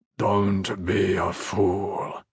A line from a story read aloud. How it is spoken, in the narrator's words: Andros said to High Luxiat Amazal, pitching his voice low so no one beyond the platform would hear him